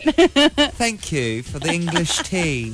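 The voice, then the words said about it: Put-on British accent. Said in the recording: “Is that your British accent?”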